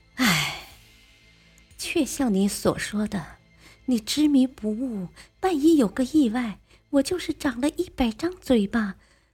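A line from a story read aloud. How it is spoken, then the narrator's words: Sighing. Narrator (Chinese): 莲香就叹着气说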